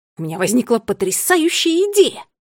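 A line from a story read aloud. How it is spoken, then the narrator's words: Excited exclamation. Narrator (Russian): воскликнул гурман Скникс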